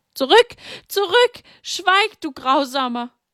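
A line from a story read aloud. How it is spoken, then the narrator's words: Loud scream. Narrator (German): Sie schrie laut auf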